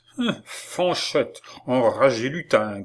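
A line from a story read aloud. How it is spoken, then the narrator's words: Angry growl. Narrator (French): gronda monsieur Lecoq en colère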